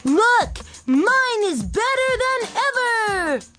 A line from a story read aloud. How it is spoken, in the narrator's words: Oliver shouted